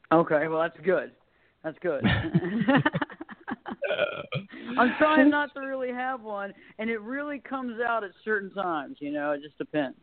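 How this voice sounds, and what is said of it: Mild Southern American accent, Texas drawl. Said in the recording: “Maybe I have that southern charm sound ... I can definitely pick out the accent that you do have an accent ... you get the little bit of that Texas drawl a little bit”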